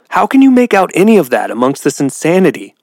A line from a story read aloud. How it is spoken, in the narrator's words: Muffins cried out